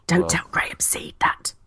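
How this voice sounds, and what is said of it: Whispering. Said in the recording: “whispering on a podcast will work, but somehow I am always convinced that nobody will hear me if I whisper”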